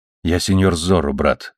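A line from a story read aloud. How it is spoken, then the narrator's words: Quick, quiet. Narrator (Russian): сказал разбойник быстро тихим голосом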